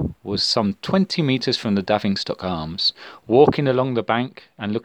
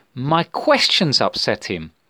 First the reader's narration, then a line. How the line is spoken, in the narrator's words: exclaimed Athelstan triumphantly